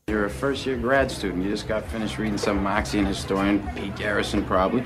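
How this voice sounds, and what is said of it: Boston accent. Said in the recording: “the Baston accent ... You pack your car and have it yad”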